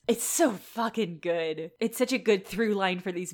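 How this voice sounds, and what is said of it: Usual voice. Nothing is said of it.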